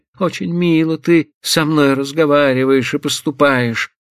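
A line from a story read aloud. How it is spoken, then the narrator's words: Tragic exclamation. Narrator (Russian): Трагическим голосом воскликнула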